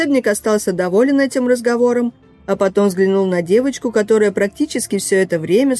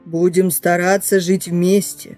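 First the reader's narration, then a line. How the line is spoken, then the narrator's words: Growled, bear. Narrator (Russian): прорычал медведь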